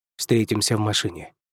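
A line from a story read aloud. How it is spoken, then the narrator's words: Quiet speech. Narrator (Russian): тихо произнес Дэниел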